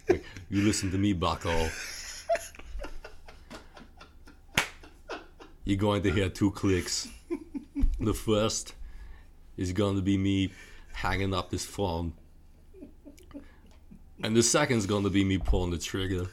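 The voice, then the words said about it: Imitates another person's voice. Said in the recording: “I love your impression. ... I feel like I went a little Chris Walken a little bit. ... Chris Walken is what I heard.”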